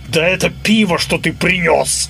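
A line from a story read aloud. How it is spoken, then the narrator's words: Growl. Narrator (Russian): рыкнул Ричи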